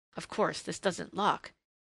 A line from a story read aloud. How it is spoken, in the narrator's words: he muttered